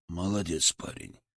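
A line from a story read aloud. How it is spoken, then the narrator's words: Quiet. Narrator (Russian): сказал он тихо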